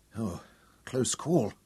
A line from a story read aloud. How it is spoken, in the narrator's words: Tom breathed